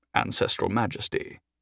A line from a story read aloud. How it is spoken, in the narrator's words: he said solemnly